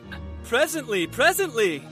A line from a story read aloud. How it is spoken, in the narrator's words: cried the latter